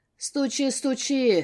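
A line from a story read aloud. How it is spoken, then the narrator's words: Smirking snort. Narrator (Russian): хмыкнул Вадим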